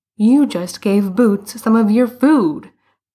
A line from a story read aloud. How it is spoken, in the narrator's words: Bruno exclaimed